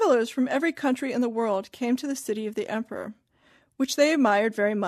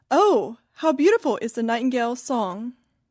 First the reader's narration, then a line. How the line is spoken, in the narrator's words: exclaim